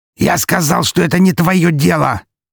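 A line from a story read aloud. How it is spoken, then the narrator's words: Barking. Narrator (Russian): рявкнул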